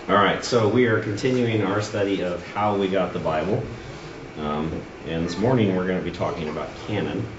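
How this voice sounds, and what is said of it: Sick, under-the-weather voice. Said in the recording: “as you can probably tell from my voice, I'm not 100% ... I break into a fit of coughing”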